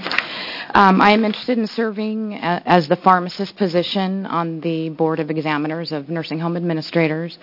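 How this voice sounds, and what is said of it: Hoarse, froggy voice. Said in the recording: “I apologize for my voice. I woke up with a froggy voice this morning.”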